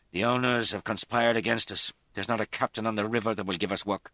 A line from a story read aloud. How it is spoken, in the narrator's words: Dermot said in his Irish brogue